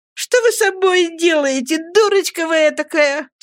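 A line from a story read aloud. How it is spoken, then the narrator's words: Laughing mother. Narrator (Russian): смеясь сказала матушка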